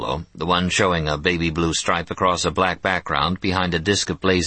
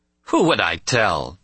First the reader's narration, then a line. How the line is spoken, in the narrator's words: Teela laughed dramatically